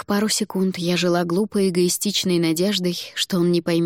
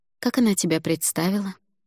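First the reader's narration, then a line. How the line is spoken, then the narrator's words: Sighing, quiet. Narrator (Russian): Альгидрас снова вздохнул и негромко ответил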